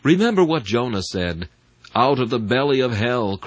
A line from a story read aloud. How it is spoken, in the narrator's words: cried I